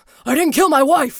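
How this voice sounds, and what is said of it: Harrison Ford impression. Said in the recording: “your best Harrison Ford impression”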